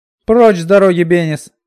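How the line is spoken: Shouted. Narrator (Russian): крикнула Минолли

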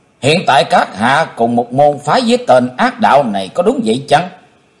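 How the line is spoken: Stern. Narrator (Vietnamese): Chí Tôn nghiêm nghị

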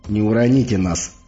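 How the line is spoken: Grumble. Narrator (Russian): проворчал Егор

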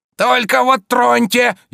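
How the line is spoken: Furious hoarse rasp. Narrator (Russian): яростно захрипел он

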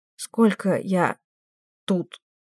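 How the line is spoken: Strained, halting words. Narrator (Russian): Снова выдавила по слову Кэс

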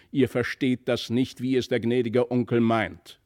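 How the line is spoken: Angry call. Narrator (German): rief die Mutter erzürnt

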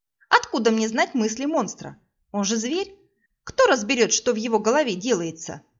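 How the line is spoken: Snapping back. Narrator (Russian): огрызнулась я

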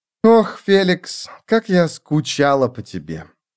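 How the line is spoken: Sighing. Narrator (Russian): Она вздохнула

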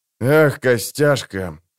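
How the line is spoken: Grumbling. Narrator (Russian): проворчал Кин

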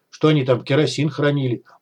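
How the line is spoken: Muttered under breath. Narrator (Russian): буркнул себе под нос Вадим

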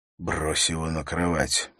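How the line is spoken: Whisper. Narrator (Russian): прошептал он

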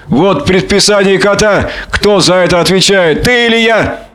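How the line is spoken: Squealing. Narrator (Russian): провизжал Шпиц

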